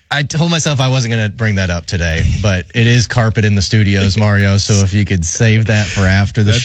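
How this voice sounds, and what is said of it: Slightly raspy, sick-sounding voice. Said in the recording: “You sound, your voice is a little raspy ... I am sick”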